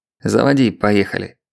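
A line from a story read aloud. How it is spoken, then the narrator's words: Gruff mutter. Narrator (Russian): буркнул Леонид Александрович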